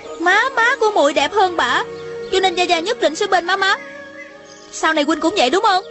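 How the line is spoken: Angry child's question. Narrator (Vietnamese): Thanh Thanh giận dữ hỏi

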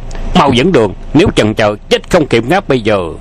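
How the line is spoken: Thunderous bark. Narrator (Vietnamese): Hoàng Dược Sư nạt như sấm

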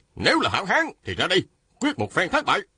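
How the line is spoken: Shouted. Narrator (Vietnamese): Phan Tú Đạt la lên

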